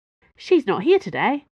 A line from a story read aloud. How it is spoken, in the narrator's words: Planchet said cheerfully